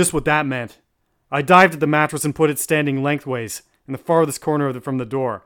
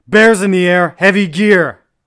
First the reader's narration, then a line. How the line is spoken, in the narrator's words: the warning shout rang out